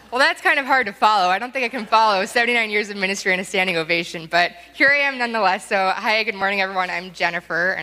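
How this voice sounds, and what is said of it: Speaking very fast. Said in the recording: “I'm talking very fast, so I'll slow down a little bit.”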